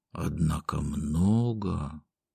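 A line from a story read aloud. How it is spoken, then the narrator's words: Restrained bass, near whisper. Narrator (Russian): Губернатор сдержанным басом почти шепотом сказал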